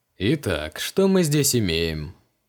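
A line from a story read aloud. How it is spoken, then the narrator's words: Snorting. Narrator (Russian): хмыкнул Креол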